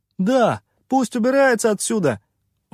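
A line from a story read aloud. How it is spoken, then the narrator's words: Shout from behind. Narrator (Russian): выкрикнул кто-то из-за его спины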